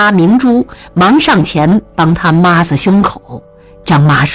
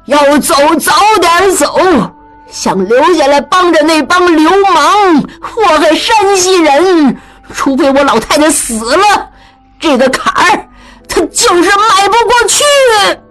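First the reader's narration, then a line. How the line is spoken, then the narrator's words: Loud, indignant. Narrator (Chinese): 江雪英仍气不平，大声说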